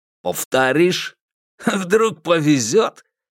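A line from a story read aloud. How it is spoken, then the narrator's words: Giggling. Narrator (Russian): Миззи хихикнула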